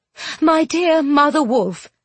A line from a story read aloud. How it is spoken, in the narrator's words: Mater Lumley said in a shaking voice